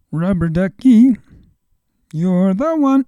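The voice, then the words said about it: Bad Ernie impression, singing. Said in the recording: “That's the worst Ernie impression ever.”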